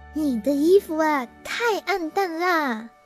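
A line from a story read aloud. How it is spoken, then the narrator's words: Shrill, jealous. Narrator (Chinese): 嫉妒圈，尖声尖气的说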